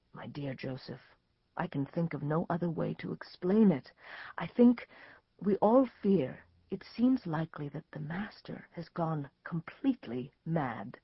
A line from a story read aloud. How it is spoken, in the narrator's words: the voice of Nicodemus murmur in his ear